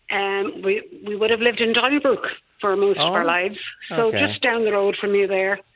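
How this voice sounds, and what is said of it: Dublin accent. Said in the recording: “I'm from Dublin originally, and I haven't lost my accent ... you kept your Donnybrook accent”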